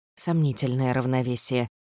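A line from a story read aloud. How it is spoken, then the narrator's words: Muttered. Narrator (Russian): пробормотала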